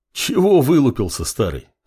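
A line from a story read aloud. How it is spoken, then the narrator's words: Chuckling northerner. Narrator (Russian): хохотнул северянин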